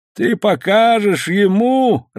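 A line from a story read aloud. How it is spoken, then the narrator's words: Laughing loudly. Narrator (Russian): расхохотался Азад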